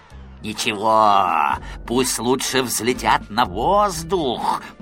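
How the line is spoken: Grumbling, another head's voice. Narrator (Russian): проворчала другая голова голосом Спруца

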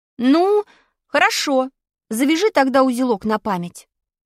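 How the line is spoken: Stern command. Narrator (Russian): строго повелел я

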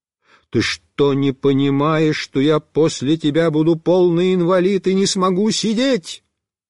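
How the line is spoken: Loud yell. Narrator (Russian): Я прямо заорал

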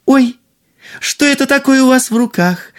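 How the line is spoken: Exclaimed. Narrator (Russian): воскликнула принцесса

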